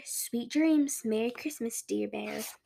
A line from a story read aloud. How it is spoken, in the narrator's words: They whisper